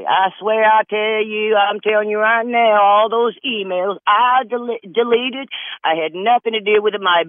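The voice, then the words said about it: Imitates another person's voice. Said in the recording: “I always did a lot of voice making fun of people... let's go over to Hillary”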